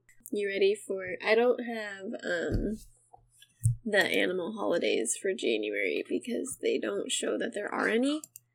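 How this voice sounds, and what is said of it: Slightly raspy, congested voice. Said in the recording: “I'm having either allergies or a cold... if I sniffle a lot... I sound a little raspy”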